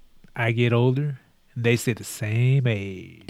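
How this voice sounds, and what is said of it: Imitates another person's voice. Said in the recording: “You sound like Matthew McConaughey ... that's a good impersonation of him.”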